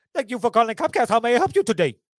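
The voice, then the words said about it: Imitates a tech support worker's accent. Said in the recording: “a technical support guy who sounded exactly like this ... his accent was way, way thicker than that”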